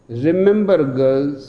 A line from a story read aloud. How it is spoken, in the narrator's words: says Mrs